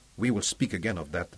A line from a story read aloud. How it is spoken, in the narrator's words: promised coldly